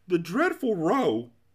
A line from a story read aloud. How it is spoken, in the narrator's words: cried the anguished Din